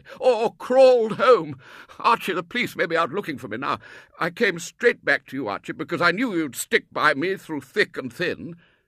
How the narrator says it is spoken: supplied the colonel wildly

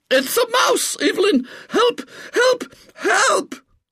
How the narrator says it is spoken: screams

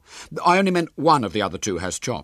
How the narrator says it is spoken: said William hastily

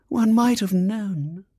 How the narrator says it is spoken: she said dreamily

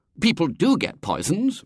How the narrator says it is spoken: Robert said indignantly

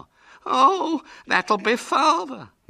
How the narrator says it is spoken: moaned Hubert

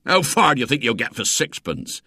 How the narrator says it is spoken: said the man scornfully

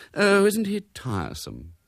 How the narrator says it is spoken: sighed Mrs

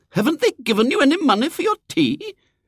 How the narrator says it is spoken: said the lady indignantly

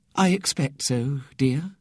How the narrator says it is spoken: said Ethel gently

